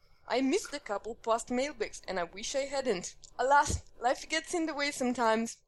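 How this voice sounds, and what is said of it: Put-on Russian accent. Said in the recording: “Please read with a Russian accent. ... please read email with Russian accent.”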